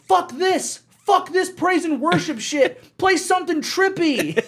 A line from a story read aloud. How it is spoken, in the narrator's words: a guy in the back yelling